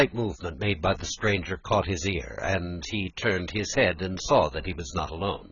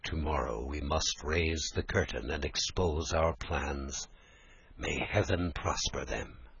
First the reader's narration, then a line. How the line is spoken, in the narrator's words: he spoke to himself in an undertone